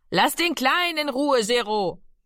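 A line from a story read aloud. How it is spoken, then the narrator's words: Called out. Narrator (German): rief Mami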